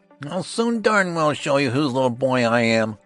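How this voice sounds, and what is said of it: Ferocious character voice. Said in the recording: “in a ferocious voice”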